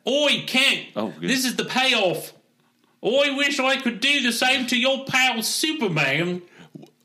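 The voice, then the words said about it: Put-on Australian-sounding accent. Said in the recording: “Is he Australian now?”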